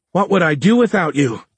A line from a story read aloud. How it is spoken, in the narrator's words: Dora yelled